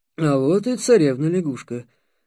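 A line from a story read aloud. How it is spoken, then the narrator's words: Muttered. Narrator (Russian): пробормотал Ростислав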